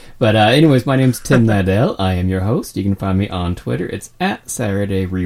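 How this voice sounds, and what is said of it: Usual voice. Nothing is said of it.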